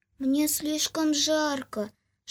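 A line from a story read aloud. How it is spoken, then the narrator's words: Little flower whispering. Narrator (Russian): шептал цветочек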